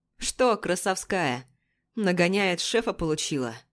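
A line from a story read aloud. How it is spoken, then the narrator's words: Snide question, senior investigator. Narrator (Russian): ехидно спрашивает старший следователь Ермоленко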